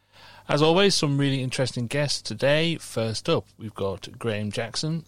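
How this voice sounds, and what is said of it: Mumbly Scouse accent. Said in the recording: “my irritating, mumbly scouse drawl”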